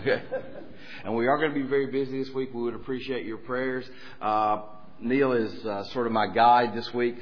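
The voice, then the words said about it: Tennessee Southern American accent. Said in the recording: “I do apologize for the accent. This is how we sound in Tennessee ... I'm the one with the accent.”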